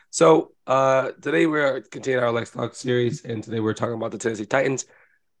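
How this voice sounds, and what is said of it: Sick-sounding voice. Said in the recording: “forgive my voice. I am sick.”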